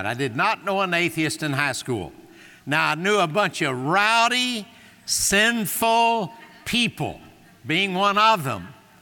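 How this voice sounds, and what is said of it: Southern US Bible Belt accent. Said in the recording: “I was raised in the Bible Belt. You can hear that in my accent.”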